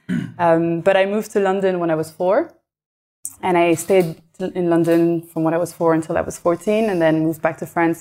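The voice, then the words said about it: French-accented English. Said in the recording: “you've got an accent ... So I'm French ... the accent is staying”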